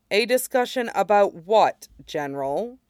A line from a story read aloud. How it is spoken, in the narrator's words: asks evenly